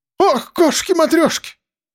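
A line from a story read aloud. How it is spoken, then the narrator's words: Sudden female cry. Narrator (Russian): вскрикнула она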